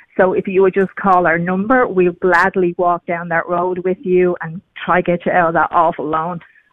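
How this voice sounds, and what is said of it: Irish accent. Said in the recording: “It's an Irish accent. ... that sounds Irish ... I think I've lost a little bit of it. ... you haven't lost it all.”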